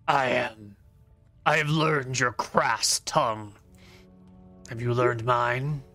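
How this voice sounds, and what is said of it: Husky orc character voice. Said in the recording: “in a husky voice”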